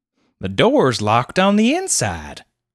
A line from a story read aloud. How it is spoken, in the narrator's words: exclaimed Clovis